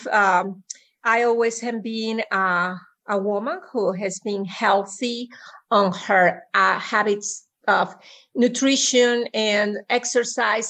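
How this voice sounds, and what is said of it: Noticeable foreign accent. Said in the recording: “As you can hear already, I have an accent.”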